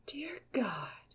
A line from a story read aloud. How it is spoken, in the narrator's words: Eames breathed